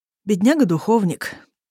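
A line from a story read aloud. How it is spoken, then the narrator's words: Good-natured sigh after laughing. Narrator (Russian): добродушно вздыхает Эрлик, просмеявшись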